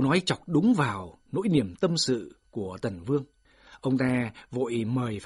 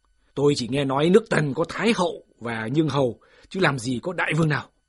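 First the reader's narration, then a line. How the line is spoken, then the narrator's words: Loud voice. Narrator (Vietnamese): Phạm Thư còn đang lớn tiếng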